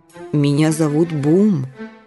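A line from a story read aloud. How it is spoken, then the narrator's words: Soft interjection. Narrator (Russian): мягко вставил сен-бернар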